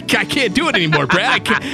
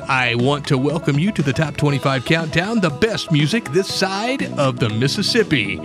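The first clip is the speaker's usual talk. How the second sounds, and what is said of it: Exaggerated radio announcer voice. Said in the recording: “in my best radio voice ... I can't do the voice”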